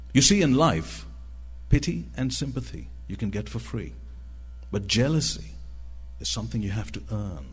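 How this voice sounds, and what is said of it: Unusual accent, impaired articulation. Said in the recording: “the right side of my tongue is paralyzed. I do speak in a funny accent”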